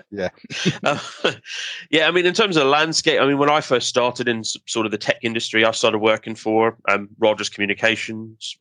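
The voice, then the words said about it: Funny accent. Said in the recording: “I'm originally from. Okay. Despite the funny accent.”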